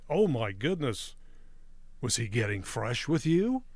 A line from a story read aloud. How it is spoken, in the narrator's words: the other ladies gasped and said